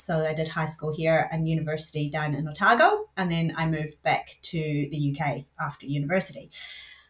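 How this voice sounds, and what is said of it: Scottish accent mixed with New Zealand. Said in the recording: “this bizarre accent ... I'm originally from the north of Scotland, and I moved to New Zealand when I was 12”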